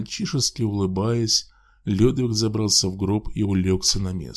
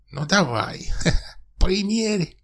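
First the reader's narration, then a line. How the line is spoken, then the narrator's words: Giggling old hag demanding. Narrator (Russian): Потребовала хихикающая старая корга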